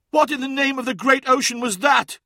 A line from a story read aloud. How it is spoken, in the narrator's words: cried Sobek